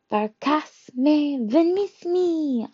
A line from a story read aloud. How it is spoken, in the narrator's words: I yelled